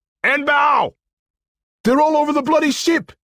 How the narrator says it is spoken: Another screamed

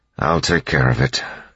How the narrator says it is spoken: Elend said, sighing

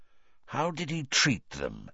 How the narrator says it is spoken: Moody asked quietly

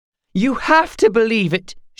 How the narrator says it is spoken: she cried

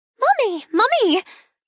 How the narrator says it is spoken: she squeals when she sees me

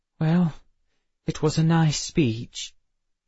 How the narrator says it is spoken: Emma sighed

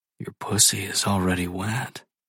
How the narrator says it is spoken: whisper

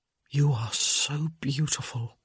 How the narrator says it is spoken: he whispered

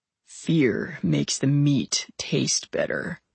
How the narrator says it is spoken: he said in a voice that held an edge of a growl

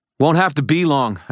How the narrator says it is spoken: I shouted back

